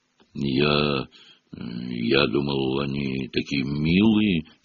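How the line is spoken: Uncertain. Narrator (Russian): неуверенно сказал Хагрид

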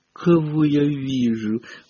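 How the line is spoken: Lazy drawl. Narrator (Russian): по обыкновению лениво протянул Малфой

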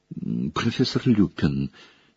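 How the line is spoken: Hesitant girl. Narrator (Russian): неуверенно вступила в разговор Гермиона

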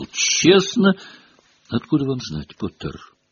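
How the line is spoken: Gentle objection. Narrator (Russian): мягко возразила МакГонагал

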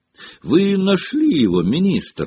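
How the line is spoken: Exclaimed. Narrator (Russian): воскликнул Том

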